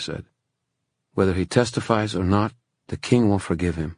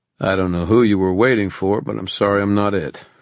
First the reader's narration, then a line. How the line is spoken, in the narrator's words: he said dryly